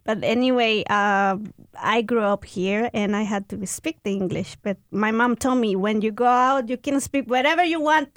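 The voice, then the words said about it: Speaks English with a foreign accent. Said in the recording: “that's why I still have my accent”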